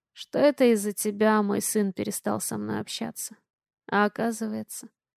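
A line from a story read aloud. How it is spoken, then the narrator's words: Hoarse. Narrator (Russian): хрипло сказала она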